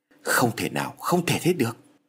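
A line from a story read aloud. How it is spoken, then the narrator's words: Stammering in shock. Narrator (Vietnamese): ông Phát nổi ra gà lắp bắp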